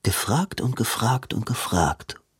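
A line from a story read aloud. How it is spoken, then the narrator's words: Murmuring. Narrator (German): murmelte Robin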